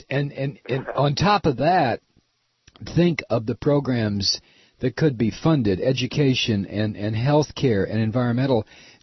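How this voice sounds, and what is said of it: Hoarse, failing voice. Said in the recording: “I'm sorry, I'm losing my voice.”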